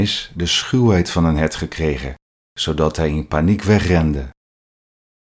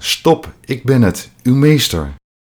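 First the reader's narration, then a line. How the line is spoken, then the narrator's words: Loud call. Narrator (Dutch): Hij wilde luid roepen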